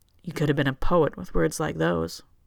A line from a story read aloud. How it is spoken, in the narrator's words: Johann says, a little coldly